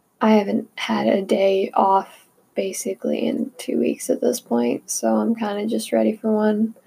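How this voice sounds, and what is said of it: Strained, failing voice. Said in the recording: “my voice is kind of going, so sorry if it, like, sounds really off”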